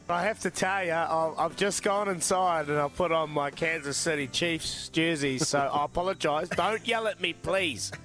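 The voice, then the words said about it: Strong accent, hard to understand. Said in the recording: “you guys both sound the same. You both got that ridiculous accent nobody can understand”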